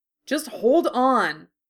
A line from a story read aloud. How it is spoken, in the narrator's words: Harry snapped impatiently